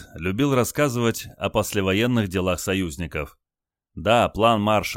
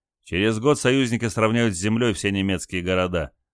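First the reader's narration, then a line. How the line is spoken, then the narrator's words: Snorted. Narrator (Russian): фыркнул Олег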